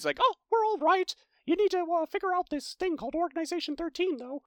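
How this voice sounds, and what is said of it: Good Mickey Mouse character voice. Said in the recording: “You have a good Mickey impersonation.”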